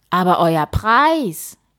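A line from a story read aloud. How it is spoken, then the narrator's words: King calling. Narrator (German): rief der König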